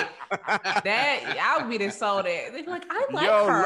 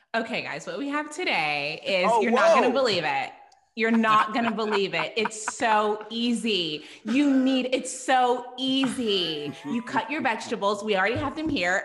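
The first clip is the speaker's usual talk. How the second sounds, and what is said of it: Put-on white woman sales voice. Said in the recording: “I put on my white woman voice”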